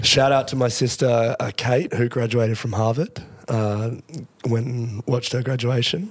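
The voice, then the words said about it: Deep, nearly lost voice. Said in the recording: “sick, almost lost his voice ... You're not sounding good ... deep voice”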